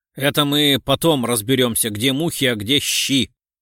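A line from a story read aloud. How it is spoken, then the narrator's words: Grumbling. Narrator (Russian): проворчал Лев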